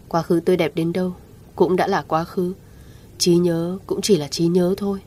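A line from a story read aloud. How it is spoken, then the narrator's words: Soft, expressionless. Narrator (Vietnamese): Anh khẽ mở miệng, mặt không biến đổi sắc nói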